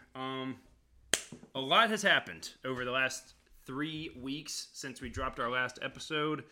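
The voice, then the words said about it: Worn-out, strained voice. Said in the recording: “my voice is absolutely shot.”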